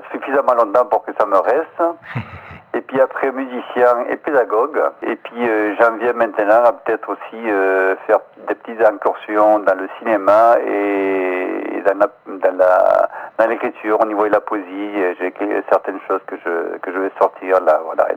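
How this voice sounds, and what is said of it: Slight Spanish accent with Marseille tinge. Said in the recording (French): “petit accent espagnol, matinée de petit accent marseillais”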